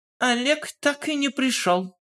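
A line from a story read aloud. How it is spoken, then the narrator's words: Loud. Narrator (Russian): громко проговорила она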